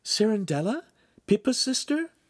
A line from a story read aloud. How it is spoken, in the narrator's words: Giulietta said brightly